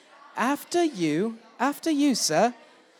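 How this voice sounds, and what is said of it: Put-on British accent. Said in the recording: “give me your best after you in a British accent”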